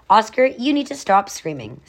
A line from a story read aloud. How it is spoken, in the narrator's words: Sage said calmly